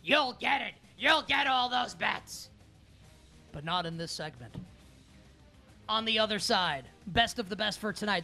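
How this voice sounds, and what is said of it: Imitates another person's voice. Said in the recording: “my Vince McMahon impersonation.”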